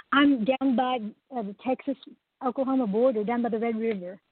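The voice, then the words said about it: Oklahoma accent. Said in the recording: “I love your accent ... Oklahoma”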